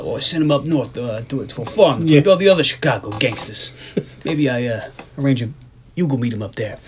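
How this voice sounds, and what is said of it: Bad put-on accent impression. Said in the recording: “I don't know what accent you're doing, but that is not the correct one ... We're back to ... bad accent ... I don't know what kind of impersonation that was ... that was a terrible Sean Penn”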